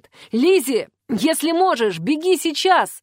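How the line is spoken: Shout. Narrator (Russian): крикнул он

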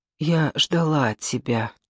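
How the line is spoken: Whisper. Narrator (Russian): шепнула

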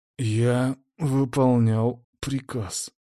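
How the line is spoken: Through gritted teeth. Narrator (Russian): сквозь зубы процедил связист

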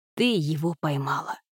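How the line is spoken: Quiet and firm. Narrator (Russian): сказал Джим негромко и твердо

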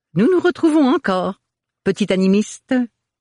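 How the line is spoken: Musical singsong. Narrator (French): chantonna-t-il d'une voix musicale

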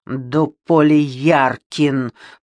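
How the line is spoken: Through gritted teeth. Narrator (Russian): процедила Ребекка сквозь зубы

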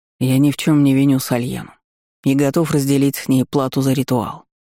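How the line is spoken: Plain. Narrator (Russian): ответил Феникс

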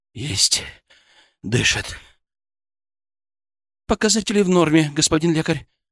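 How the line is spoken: Breathless disbelief. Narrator (Russian): выдохнула Светочка, не веря своим глазам

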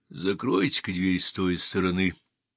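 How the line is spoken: Calm interruption. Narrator (Russian): спокойно прервал Мейсон

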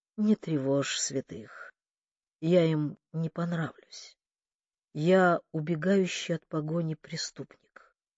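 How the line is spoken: Hoarse. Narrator (Russian): Он хрипло проговорил

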